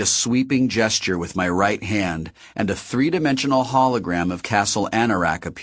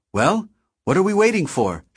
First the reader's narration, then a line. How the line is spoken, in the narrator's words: Shoto said excitedly